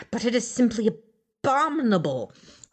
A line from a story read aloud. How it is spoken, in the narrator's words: cried Teowyn